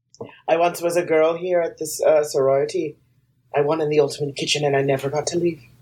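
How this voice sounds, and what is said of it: Mixed Irish and Jamaican accent. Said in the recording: “This accent sounds a little Irish and Jamaican.”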